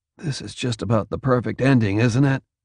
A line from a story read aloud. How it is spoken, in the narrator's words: said quietly